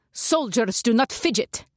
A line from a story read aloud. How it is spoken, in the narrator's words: the woman snapped